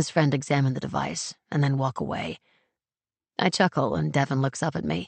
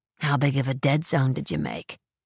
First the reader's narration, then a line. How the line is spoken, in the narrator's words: He chuckles